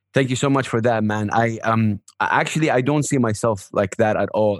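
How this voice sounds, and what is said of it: Emotional, choked-up voice. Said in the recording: “Sorry, just getting emotional a little bit right here.”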